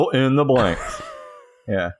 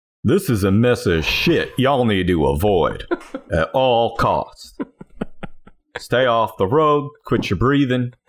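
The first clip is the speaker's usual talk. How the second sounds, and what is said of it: Imitates another person's voice. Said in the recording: “how would Dr. Phil categorize this top 10 list? ... since we're doing impersonations now”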